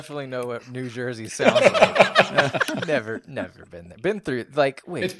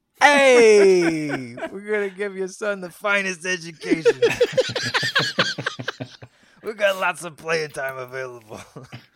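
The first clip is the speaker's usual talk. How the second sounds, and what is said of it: Put-on Italian-American accent. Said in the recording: “just do an Italian accent”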